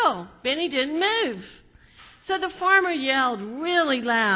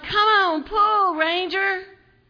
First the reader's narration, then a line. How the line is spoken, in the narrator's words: he yelled